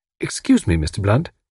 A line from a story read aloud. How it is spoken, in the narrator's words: said Tuppence, interrupting in a deferential tone